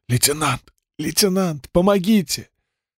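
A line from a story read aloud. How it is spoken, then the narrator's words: Coughing, hoarse wheeze. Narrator (Russian): Мюллер кашлянул и прохрипел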